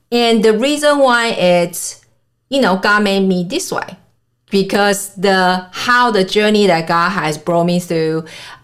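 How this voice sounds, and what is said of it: Mixed Mandarin, German, Japanese accent. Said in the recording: “if you guys just listen to my voice you probably not so easy for you to guess where i am originally ... my accent totally messed up, right? Totally messed up with Mandarin and German, English, Japanese, I mean, plenty of them.”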